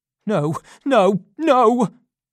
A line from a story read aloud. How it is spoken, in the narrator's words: cried Monks